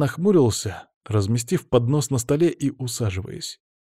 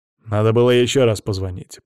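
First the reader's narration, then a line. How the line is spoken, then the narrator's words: Grumbling. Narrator (Russian): проворчал Павел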